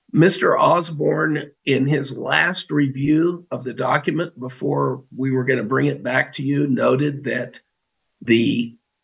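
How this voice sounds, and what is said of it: Raspy hoarse voice. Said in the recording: “raspy voice ... taken its toll on the old voice box”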